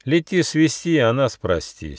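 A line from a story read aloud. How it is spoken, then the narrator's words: Angry gnome. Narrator (Russian): сердито ответил гномик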